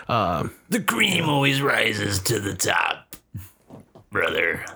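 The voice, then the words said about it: Imitates another person's voice, strained register. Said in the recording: “Bad impression. ... I can't do his voice because it hurts my throat. ... It's accurate, but it hurts. ... It was like a weird register. I've never heard anybody's voice go to, but it was pretty good.”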